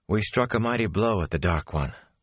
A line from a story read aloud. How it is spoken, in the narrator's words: Moraine replied, settling herself with a sigh